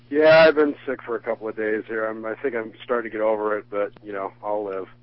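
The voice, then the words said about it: Stuffy, congested voice. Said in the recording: “you sound stuffy.”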